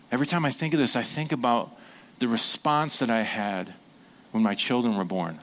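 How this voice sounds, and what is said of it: Emotional, choked-up voice. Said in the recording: “I'm getting emotional a little bit here.”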